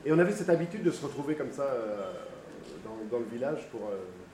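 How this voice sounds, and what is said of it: Italian accent in French. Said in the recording (French): “mon accent travaillait un petit peu. Je suis italien.”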